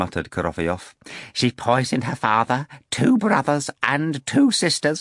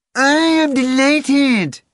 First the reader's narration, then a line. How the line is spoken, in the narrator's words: shrieked the cat